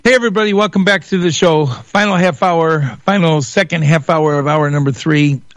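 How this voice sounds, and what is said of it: Hoarse, strained voice. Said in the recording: “I'm losing my voice because I've been reading these text messages.”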